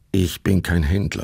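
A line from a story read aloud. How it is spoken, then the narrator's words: Plain. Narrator (German): sagte Sepp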